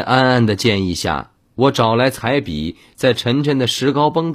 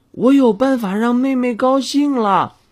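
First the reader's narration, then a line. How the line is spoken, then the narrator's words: Child shouting. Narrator (Chinese): 安安 喊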